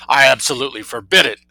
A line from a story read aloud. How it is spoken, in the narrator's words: thundered the colonel